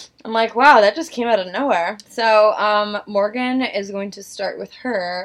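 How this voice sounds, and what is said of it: Usual voice. Nothing is said of it.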